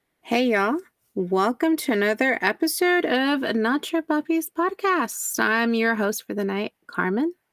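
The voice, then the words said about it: Texan accent. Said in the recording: “you got that Texan accent going on.”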